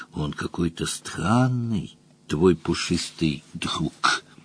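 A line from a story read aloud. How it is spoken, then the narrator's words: Whisper, tigress. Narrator (Russian): Тигрица прошептала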